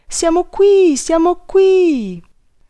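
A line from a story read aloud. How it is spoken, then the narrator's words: Said very loudly. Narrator (Italian): i ragazzi che erano dietro l'uscio la sentirono e gridarono tutti insieme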